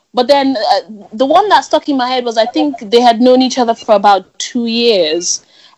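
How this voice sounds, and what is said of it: Voice congested from a cold. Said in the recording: “As you guys can hear from my voice, I've got a bit of a cold.”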